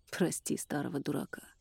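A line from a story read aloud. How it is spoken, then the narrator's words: Gruff mutter. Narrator (Russian): буркнул Эрик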